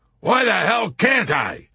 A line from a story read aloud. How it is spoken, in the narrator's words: General Dreidel bellowed